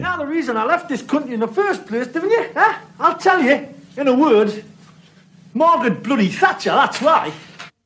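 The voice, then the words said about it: Put-on southwestern English accent. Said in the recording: “That's English. ... That was really good. ... that is like a more southwestern...”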